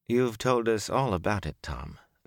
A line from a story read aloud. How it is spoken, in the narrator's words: the elder woman said sadly